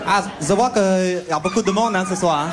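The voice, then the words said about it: Exaggerated put-on accent. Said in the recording (French): “Je vais arrêter avec cette accent de merde.”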